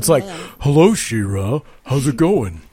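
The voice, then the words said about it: Deep man's voice for talking horse. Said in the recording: “It talks in a man voice.”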